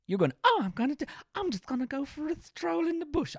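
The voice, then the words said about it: Put-on English accent. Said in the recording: “I don't know why yours now suddenly English”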